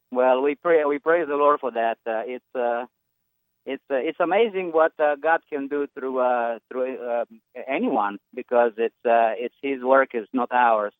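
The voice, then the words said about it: Strong Romanian accent. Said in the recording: “now you know what a Romanian sounds like because there's that accent. It's hard to miss.”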